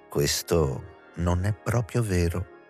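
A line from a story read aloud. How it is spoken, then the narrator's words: Calm, deep female voice. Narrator (Italian): rispondeva Juliette con la voce calma e profonda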